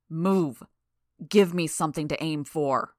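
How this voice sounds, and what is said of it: Heavily accented growling panting voice. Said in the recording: “growled in his heavily accented voice,... interrupted by his panting for breath.”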